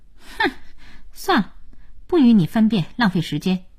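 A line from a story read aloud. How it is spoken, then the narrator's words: Sighing. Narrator (Chinese): 小柳叹口气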